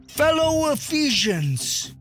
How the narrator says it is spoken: he stated loudly and with authority

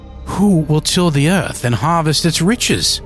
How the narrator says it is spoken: pleaded

